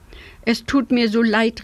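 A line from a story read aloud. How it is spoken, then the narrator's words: Called from afar. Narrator (German): rief Herr Schnäufel dem Raben schon von Weitem zu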